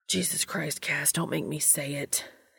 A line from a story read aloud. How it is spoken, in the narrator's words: hissed